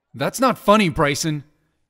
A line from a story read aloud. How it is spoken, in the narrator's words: Aaron said angrily